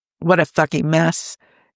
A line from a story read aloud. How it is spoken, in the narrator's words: he sighed